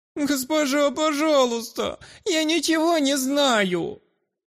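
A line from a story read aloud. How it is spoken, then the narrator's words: Whining, pleading child. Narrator (Russian): Малец привычно захныкал, пытаясь вызвать к себе сострадание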